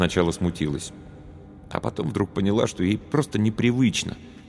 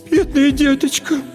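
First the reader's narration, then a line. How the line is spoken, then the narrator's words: Moved, tender babbling. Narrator (Russian): Растрогавшись еще больше, лепетала тетя Ира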